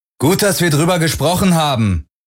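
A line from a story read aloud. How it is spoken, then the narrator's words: Calling after. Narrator (German): rief Parker Garland nach, als dieser die Brücke verließ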